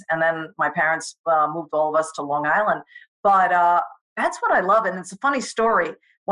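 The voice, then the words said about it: Strong New York accent. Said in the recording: “you kept your New York accent. We have a very, very strong accent, the way we enunciate certain things”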